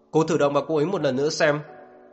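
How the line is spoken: Irritated shout. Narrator (Vietnamese): ánh mắt của Niệm Bích Ngạn trở nên bực bội, anh quát lên với Diệp Ngọc

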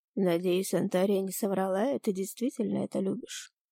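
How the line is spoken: Plain. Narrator (Russian): сказал Ирис

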